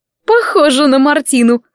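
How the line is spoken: Short laugh. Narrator (Russian): хохотнула Харди

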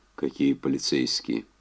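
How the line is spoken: Hoarse question. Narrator (Russian): хрипло спросил Энди

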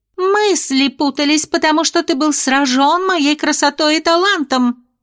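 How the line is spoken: Shrill squeal. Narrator (Russian): взвизгнула будущая хозяйка драконьего замка

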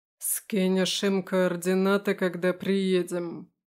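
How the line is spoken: Growling exhale. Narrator (Russian): выдохнул с рычанием

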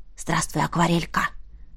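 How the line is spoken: Whisper in ear. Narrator (Russian): шепнул на ушко

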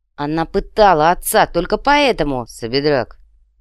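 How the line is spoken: Cold. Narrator (Russian): холодно произнес третий

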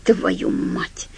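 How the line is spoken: Soundless breath. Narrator (Russian): беззвучно выдохнул Томми Оанаймекер

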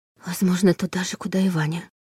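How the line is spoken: Bitter near-whisper. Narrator (Russian): почти прошептала Лиля, чувствуя горький привкус во рту

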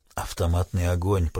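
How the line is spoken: Whisper. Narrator (Russian): прошептал Крейг

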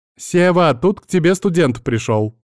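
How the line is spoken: Loud shout. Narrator (Russian): она громко крикнула

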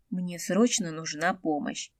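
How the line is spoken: Quiet voice. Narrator (Russian): тихо звякнула

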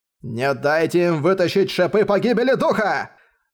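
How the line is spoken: Desperate shout. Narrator (Russian): отчаянно закричал

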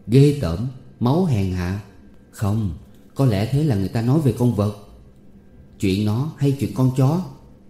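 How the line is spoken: Stunned, soft sigh. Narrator (Vietnamese): Nó sửng sốt cả người, nó thở dài khẽ, trống ngực nó thình thình

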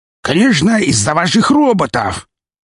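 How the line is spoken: Loud shriek filling room. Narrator (Russian): завизжав на всю комнату

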